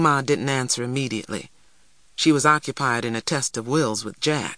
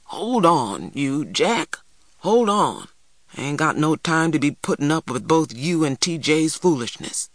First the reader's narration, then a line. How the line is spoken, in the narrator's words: Big Ma grumbled